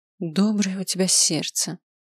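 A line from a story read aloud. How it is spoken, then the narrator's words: Sighing. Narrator (Russian): вздохнула она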